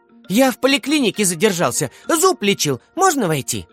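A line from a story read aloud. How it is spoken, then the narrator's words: Exclaimed. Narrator (Russian): воскликнул он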